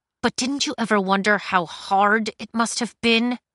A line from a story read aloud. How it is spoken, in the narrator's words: Cinder said through her teeth